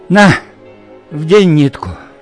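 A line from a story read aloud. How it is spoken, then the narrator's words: Request with heavy sigh. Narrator (Russian): попросила она и тяжело вздохнула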